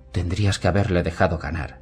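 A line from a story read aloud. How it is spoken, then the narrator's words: Whisper. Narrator (Spanish): susurró Penny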